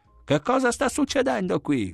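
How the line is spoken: Yelled. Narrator (Italian): urlò

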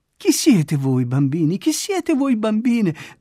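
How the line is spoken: Loving, laughing question. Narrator (Italian): domanda ridendo, pieno d'amore per essi

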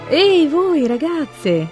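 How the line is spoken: Shouted. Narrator (Italian): grida la Pigunot

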